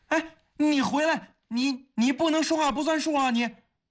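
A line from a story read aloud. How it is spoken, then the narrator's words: Loud, anxious shout. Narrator (Chinese): 方威心中大急，他只好大声地喊道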